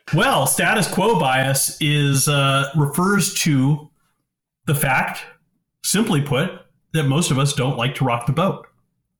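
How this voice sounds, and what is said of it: English accent. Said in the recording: “you've got a beautiful English accent”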